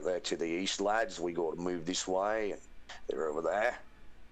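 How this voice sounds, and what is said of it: Put-on Australian accent. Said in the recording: “I did one round as an Aussie”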